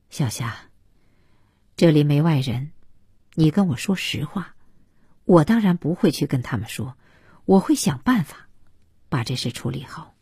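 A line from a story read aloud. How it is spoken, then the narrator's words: Lowered voice. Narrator (Chinese): 他还是压低了声音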